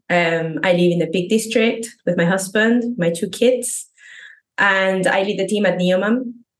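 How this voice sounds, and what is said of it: Argentine-accented non-native English. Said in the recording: “as you can probably hear in my accent, I am not a native English speaker. I'm originally from Argentina.”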